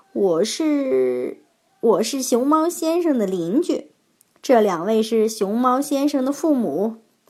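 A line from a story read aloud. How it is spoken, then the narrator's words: Startled, then laughing. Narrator (Chinese): 猴子先生先是一怔，马上又笑着说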